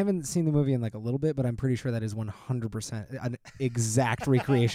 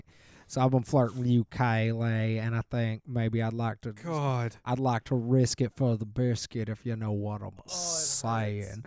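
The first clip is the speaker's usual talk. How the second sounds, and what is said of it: Imitates a film character's voice. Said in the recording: “This is my Simon impression ... I think it's pretty good ... like kind of on point”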